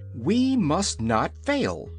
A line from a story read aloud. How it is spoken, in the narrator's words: cried Ozma courageously